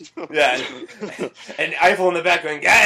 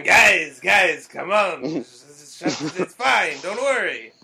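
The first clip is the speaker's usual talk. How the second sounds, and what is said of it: Put-on French accent. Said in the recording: “That's my French accent, it's really good. ... It's a good accent.”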